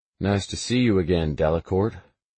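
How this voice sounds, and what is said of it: Slow drawling delivery. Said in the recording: “I drawl.”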